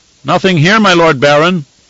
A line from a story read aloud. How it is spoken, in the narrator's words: he shouted back